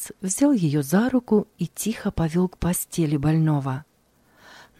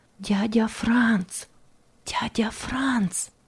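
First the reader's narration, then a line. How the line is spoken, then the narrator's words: Whisper. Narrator (Russian): прошептала она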